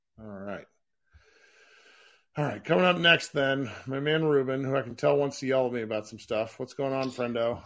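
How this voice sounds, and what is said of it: Rough, unwell-sounding voice. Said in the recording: “I'm glad your voice is recovered ... No, it's still shitty”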